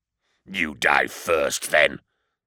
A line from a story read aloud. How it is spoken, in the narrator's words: snarled his opponent